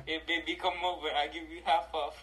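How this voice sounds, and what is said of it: Put-on Indian accent. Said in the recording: “What about Indian accents? ... the tech support gray man ... That accent will pull”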